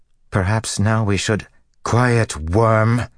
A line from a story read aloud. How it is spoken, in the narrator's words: Semirog spat at her